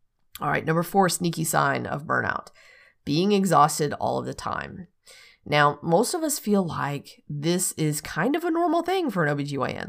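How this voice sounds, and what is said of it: Slightly hoarse voice. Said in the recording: “I might lose my voice. I don't know. I'm feeling a little hoarse already midway through this”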